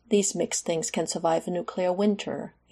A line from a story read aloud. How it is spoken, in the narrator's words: he told Maria cheerfully